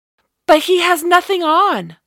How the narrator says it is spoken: Without thinking, her voice cried out

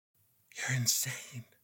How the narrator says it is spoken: Kennedy whispered

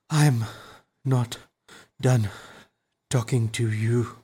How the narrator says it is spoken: the hero said, panting

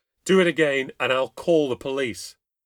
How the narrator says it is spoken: Stupidly, I shouted

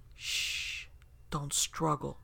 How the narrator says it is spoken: a voice hissed into my ear

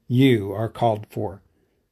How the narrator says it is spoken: he said more gravely

